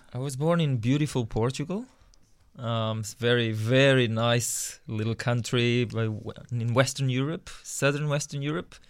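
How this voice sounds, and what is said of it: Foreign accent. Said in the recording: “we detect that you have an accent, as though you may have been born overseas”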